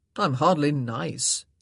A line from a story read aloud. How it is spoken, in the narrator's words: he scoffed